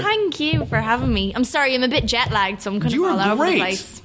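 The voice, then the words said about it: Nice foreign accent. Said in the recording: “you have a much nicer accent than I do”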